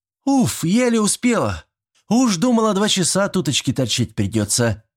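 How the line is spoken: Girl shouting. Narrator (Russian): прокричала симпатичная девчонка

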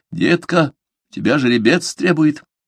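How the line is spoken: Distinct whisper. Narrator (Russian): Тито Альба, лежавший в кровати напротив, явственно прошептал

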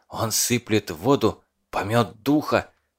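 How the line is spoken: Whisper. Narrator (Russian): шепотом объяснил вождь

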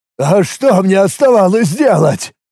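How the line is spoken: Fervent exclamation. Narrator (Russian): с пылом воскликнул компаньон

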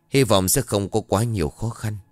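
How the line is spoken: Muttering. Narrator (Vietnamese): thầy Lý lẩm bẩm

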